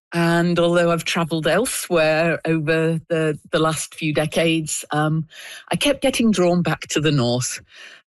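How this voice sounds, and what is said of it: British accent. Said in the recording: “you can probably tell by my accent, I'm not originally from the Yukon. I'm originally from Britain.”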